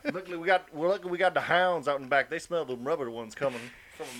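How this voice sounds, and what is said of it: Put-on Southern yokel accent. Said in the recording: “Southern accent ... this yokel accent”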